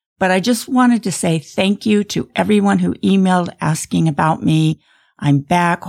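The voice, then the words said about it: Slightly rough, crusty voice. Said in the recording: “I've been off a couple of weeks due to chronic bronchitis... You can probably still hear my voice is a little crusty”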